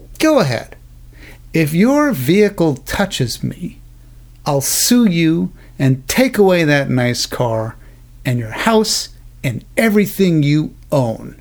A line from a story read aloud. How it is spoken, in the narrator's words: said coolly